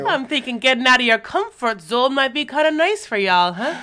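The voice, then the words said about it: Eclectic Irish-Caribbean put-on accent. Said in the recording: “You have a very interesting accent. ... Miss Cleo's Irish cousin. There's a lot of Caribbean happening ... a lot of influences in this accent ... It's very eclectic”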